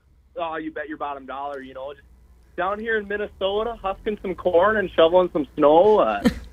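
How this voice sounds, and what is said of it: Exaggerated Minnesota accent. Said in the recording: “Can you really turn on the accent for us here in Southern California? Because we forgot what you sound like.”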